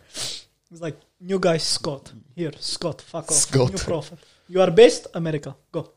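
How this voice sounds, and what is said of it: Character voice with Russian accent. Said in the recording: “I don't know why he's got a Russian accent ... why does God have a Russian accent?”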